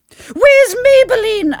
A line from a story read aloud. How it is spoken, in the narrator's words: I shrieked, worried about my friend